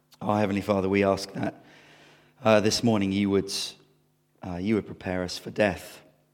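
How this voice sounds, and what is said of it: Croaky, hoarse voice. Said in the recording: “forgive me if I'm a bit croaky. I'm losing my voice”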